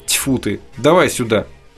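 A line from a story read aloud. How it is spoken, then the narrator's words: Grumbling old man's mutter. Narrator (Russian): старик ворчливо забормотал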